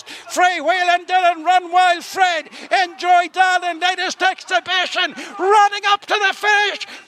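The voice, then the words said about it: Fast Irish-accented race commentary. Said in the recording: “I love the Irish. ... that accent just, at speed.”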